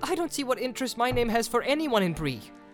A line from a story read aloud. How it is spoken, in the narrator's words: said Frodo angrily